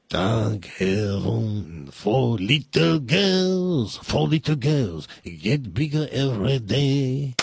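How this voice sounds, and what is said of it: French-accented singing impression. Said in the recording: “my impression of Maurice Chevalier ... That's French. Listen, here's a pretty good impression.”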